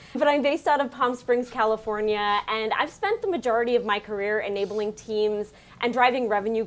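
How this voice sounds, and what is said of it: Long Island New York accent. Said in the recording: “I am bringing my Long Island accent to this gorgeous accent party”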